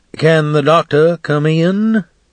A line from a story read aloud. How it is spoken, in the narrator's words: he calls in a hearty voice that almost booms